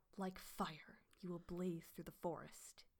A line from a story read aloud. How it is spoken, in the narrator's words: he hissed